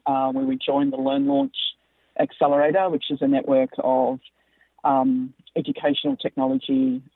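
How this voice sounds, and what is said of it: Australian-American accent. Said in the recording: “as you can tell by my accent, I'm an Australian and American”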